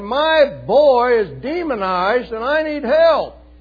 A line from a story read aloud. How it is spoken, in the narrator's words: He shouts out in front of everybody